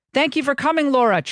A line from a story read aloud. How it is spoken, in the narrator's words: chirped a 40-something woman